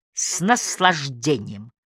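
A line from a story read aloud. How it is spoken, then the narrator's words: Plain. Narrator (Russian): ответил он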